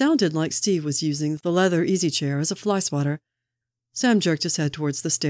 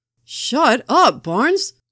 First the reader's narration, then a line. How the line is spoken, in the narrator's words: Sam yelled at him